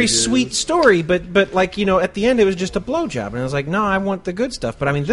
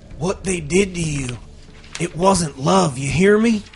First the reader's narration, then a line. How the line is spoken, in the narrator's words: Rick murmured into his ear